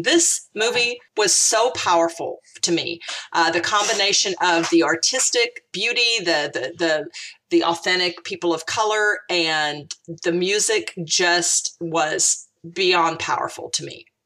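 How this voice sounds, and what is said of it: Choked up, near tears. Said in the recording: “get choked up. ... I have been in almost tears”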